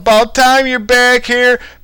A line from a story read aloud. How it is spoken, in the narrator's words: someone started yelling out, someone yelled out